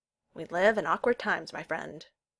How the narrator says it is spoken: he said gravely

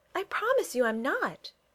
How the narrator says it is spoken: Kitty replied earnestly

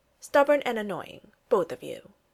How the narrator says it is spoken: she'd said

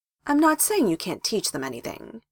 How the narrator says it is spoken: Hiruzen said in a reasonable voice

